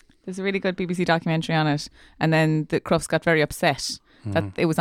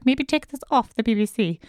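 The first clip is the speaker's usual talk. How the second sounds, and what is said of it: Put-on English accent. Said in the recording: “that was my English accent”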